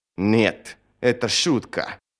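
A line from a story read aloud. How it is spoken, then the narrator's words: Hissing. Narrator (Russian): прошипела Сумаэль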